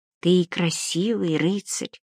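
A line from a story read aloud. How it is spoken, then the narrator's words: Whispered. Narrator (Russian): прошептала Адалиска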